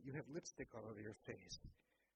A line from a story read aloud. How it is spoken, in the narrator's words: She laughed quietly and said